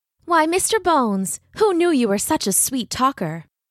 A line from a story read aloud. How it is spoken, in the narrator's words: Brahm laughed